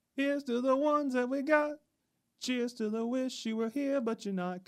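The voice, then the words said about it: Singing in falsetto. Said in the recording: “I love your falsetto.”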